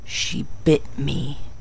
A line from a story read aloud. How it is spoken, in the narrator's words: he murmured